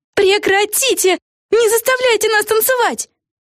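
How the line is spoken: Group shouting. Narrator (Russian): кричали они

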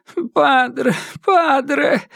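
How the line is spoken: Childlike whimpering. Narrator (Russian): хныкал Китидзиро, словно ребенок, просящий прощения у матери

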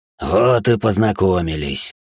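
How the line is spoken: Low muffled growl. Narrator (Russian): Глухо прорычал брюнет

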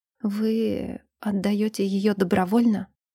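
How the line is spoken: Hoarse choked breath. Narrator (Russian): выдохнул хрипло, чувствуя, как от избытка чувств сжимается горло и становится трудно дышать

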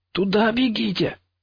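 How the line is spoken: Raised voice breaking into hoarse squeal. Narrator (Russian): Я повысил голос, но он сорвался на хриплый визг

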